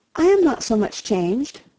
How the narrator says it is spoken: cried Anne, and stopped, fearing she hardly knew what misconstruction

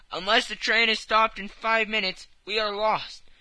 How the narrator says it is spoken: he cried

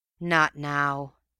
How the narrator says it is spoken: came with a grateful sort of sigh

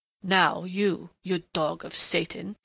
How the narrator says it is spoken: snarled in a sudden snapping of restraint

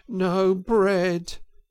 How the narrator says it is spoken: groaned the Mole dolorously

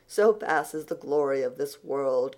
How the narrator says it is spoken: concluded Anne, with a laugh in which there was a little note of regret

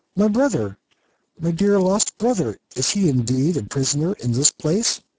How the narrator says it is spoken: Shaggy exclaimed

